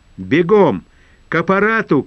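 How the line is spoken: Shouting. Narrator (Russian): кричал

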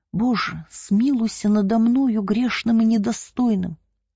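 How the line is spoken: Pleading prayer. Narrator (Russian): взмолился он

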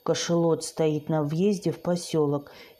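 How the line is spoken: Barely audible whisper. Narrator (Russian): едва слышно прошептал он

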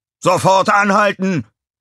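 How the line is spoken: Bellowing. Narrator (German): brüllte

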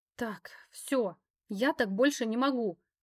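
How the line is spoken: Groan. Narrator (Russian): простонала

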